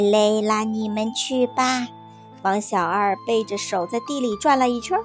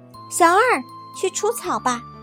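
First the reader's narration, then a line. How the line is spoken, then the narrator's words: Calling out. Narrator (Chinese): 别人又喊他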